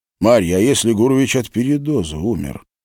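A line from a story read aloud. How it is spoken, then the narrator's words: Quiet question. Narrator (Russian): тихо спросил Глеб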